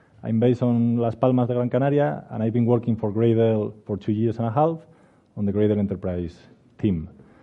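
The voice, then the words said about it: Spanish accent. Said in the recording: “I'm a Spanish developer, as you can infer from my accent.”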